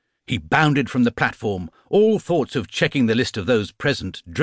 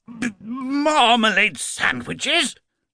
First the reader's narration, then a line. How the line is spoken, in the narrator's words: spluttered Mr